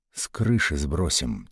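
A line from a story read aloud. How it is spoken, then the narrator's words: Quiet. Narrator (Russian): тихо сказал Ватнин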